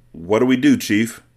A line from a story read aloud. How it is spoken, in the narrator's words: Mac asked in a shaky voice